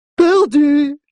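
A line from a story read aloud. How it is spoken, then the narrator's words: Exclaiming dwarf. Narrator (French): s'écria le nain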